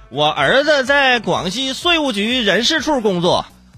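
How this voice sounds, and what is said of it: Put-on Northeastern Chinese accent. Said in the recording (Chinese): “不好意思，怎么是个东北口音啊？”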